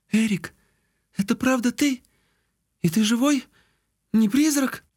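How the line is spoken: Trembling question. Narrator (Russian): Девушка дрожащим голосом спросила

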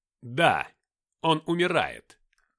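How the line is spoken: Loud announcement. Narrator (Russian): громко объявил Зефон

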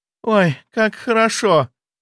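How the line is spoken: Breathing out. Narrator (Russian): выдохнула

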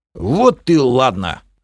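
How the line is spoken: Pleased snort. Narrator (Russian): хмыкнул довольный Бом

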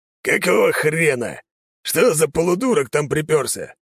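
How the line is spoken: Hoarse voice from office. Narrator (Russian): послышался хриплый голос из кабинета

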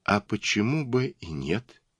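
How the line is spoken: Quiet, hidden fear. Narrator (Russian): спросила тихим голосом с затаенным испугом

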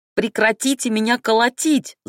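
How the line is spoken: Yelling. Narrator (Russian): заорала я

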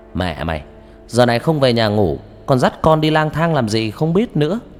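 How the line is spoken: Loud. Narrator (Vietnamese): An lớn tiếng

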